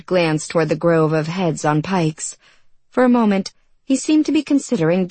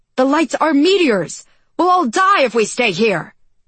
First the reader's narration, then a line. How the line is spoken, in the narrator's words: Tygo shouted